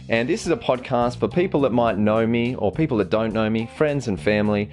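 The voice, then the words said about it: Australian accent. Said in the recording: “I'm from Australia. You might be able to tell with the accent there.”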